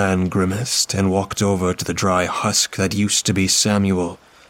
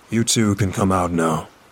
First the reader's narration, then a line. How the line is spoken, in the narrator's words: the man said